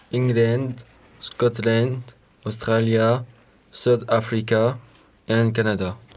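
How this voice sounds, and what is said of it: Excellent English accent. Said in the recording (French): “Votre accent est excellent.”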